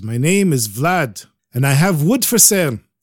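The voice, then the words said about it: Put-on Ukrainian accent. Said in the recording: “he speaks with a real Ukrainian accent.”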